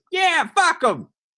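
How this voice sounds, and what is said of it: 1930s gangster Bowery accent. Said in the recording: “Not in that voice. ... He's not a 30s gangster. ... He doesn't have a Bowery accent.”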